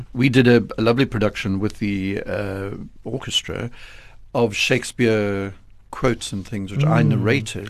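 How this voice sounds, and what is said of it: Rich, polished radio voice. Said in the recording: “your wonderful radio voice”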